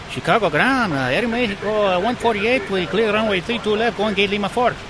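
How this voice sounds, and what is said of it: Lousy imitated Aeromexico pilot accent. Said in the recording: “excuse the lousy accent here”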